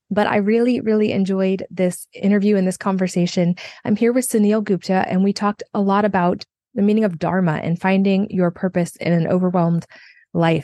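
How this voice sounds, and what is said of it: Strained voice, still recovering. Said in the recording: “excuse my voice is still a little bit recovering today”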